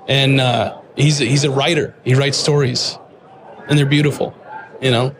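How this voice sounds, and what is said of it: Emotional, choked-up speech. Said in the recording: “So I'm getting emotional.”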